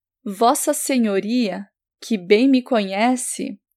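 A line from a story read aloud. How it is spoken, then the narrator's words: Plain. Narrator (Portuguese): respondeu Martinho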